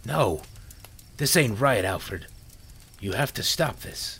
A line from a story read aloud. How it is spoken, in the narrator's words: the killer pleaded